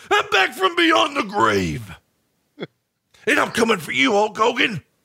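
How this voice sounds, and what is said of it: Macho Man wrestler impression. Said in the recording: “best Macho Man impersonation”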